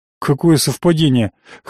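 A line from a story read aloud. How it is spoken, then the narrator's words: Wary snort. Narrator (Russian): хмыкнул я, насторожившись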